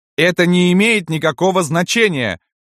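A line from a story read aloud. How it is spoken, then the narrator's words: Exclaiming. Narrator (Russian): воскликнула Ева Петровна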